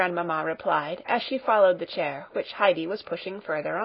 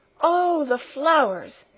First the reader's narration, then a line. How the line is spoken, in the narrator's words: exclaimed Clara